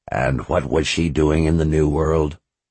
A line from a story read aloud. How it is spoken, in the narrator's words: Zed asked in a level tone